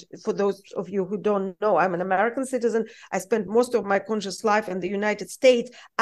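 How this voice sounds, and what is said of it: Foreign accent in English. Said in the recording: “I am an American, despite my accent”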